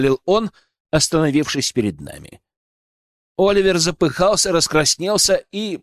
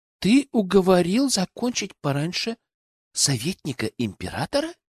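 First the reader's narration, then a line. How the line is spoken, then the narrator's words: Quiet, secretive. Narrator (Russian): Тихо, словно кто-то мог услышать, уточнила Алена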